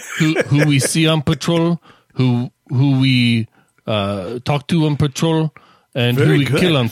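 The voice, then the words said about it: Imitates a character's accent. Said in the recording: “Very good on your accent there. I'm impressed.”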